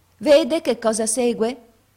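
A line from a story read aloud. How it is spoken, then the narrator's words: Maid's sour voice. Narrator (Italian): venne fuori a dire la cameriera con la sua voce agra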